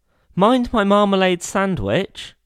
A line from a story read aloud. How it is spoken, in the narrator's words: cried Paddington